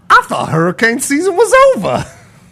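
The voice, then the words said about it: Imitates a film character's voice. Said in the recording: “Can you do a Saul impersonation”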